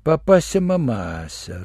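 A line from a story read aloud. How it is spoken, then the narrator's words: Disappointed drawl. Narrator (Russian): разочарованно протянул врач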